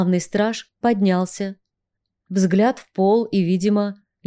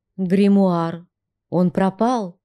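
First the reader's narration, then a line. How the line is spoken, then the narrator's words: Trembling voice. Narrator (Russian): дрожащим голосом сообщил Атал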